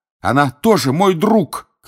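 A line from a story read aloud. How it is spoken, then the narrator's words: Shouting. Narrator (Russian): кричал Гарри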